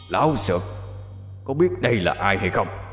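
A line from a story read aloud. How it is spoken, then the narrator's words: Shouting demon. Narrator (Vietnamese): Quỷ quát lên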